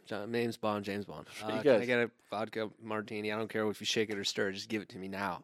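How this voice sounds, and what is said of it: Aggressive put-on American accent. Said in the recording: “can I do it with an American accent? ... do it as smooth as possible ... Very aggressive.”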